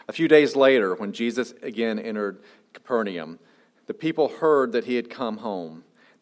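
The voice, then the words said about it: Southern American twang. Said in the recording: “NIV with a little bit of Southern twang.”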